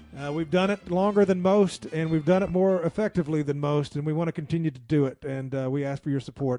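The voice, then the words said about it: Hoarse, worn-out voice. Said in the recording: “I am out of time and out of my voice. I've gone hoarse over the course of this show.”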